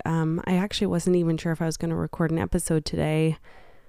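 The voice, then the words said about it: Voice altered by a cold. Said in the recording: “I am just getting over a cold, so my voice might sound a little bit different today”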